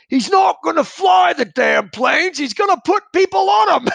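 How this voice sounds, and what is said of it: Yelled line in Australian accent. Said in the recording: “yell ... In this great Australian accent.”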